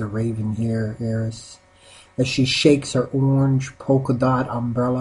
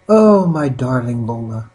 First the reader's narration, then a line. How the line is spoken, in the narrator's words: she sighs in despair